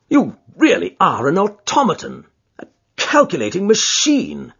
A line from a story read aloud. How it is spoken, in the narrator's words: cried